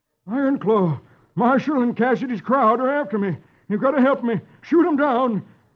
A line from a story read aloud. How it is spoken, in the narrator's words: Meeker gasps